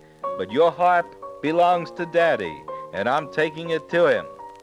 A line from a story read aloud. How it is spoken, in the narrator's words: cried Jack